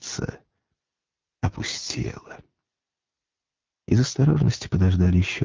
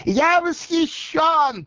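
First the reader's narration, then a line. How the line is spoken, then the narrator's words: Shouted. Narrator (Russian): прокричал Коровьев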